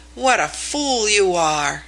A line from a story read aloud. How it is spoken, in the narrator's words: he exclaimed a little brusquely